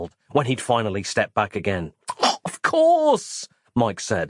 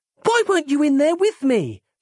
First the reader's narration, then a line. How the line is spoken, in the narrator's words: She snapped